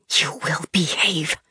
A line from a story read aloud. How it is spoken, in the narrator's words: she whispered, and her clenched teeth promised punishment to come